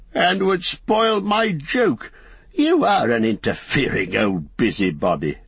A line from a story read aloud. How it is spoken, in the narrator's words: laughed Bilbo